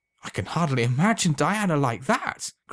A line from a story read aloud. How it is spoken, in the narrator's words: cried Alan, overwhelmed with joy